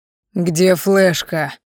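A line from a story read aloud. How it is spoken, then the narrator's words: Growled by scarred man. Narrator (Russian): прорычал бритоголовый со шрамом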